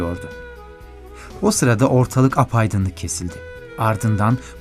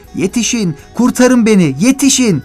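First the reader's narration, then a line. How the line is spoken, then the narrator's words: Starting to shout. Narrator (Turkish): diye bağırmaya başladı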